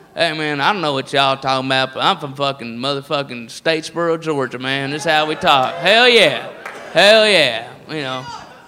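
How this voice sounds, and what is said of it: Put-on redneck accent. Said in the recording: “the redneck voice is all over the place”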